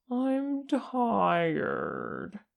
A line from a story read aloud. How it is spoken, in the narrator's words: he whined